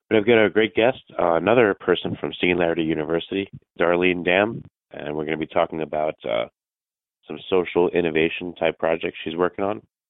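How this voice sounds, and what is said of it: Raspy voice. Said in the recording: “Please excuse my raspy voice today.”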